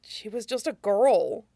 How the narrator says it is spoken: Lee said sadly

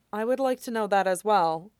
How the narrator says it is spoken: Amaya said evenly

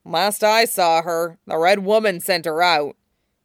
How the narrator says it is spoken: the hound grumbled

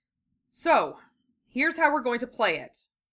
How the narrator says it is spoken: Tamari said, with her odd, brisk attitude firmly back in place

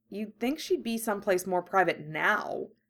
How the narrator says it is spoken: Harry grumbled mentally

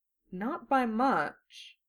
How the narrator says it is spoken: Kobai murmured

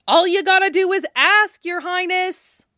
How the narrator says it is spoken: He yelled anyway

